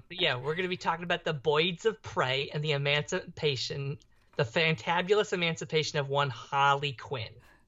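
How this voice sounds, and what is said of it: Put-on Brooklyn-style cartoon accent. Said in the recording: “Is that your attempt at a Brooklyn accent? ... It's my attempt at a Harley Quinn accent. ... Her accent is a genre unto its own. It's not even just the Brooklyn accent.”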